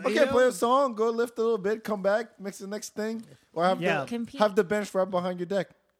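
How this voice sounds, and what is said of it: French-tinged accent. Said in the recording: “the way you said deck sounded something else ... My accent comes out a lot when I speak now ... I sound like that ... We love French accents.”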